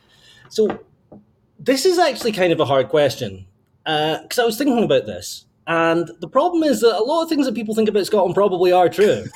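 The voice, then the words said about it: Scottish accent. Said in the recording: “We can hear your accent. You are from Scotland.”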